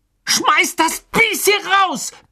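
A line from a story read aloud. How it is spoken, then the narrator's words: Bellowing. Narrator (German): brüllte Ron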